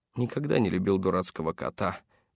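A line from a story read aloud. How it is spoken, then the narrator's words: Grumble. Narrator (Russian): проворчал Паркер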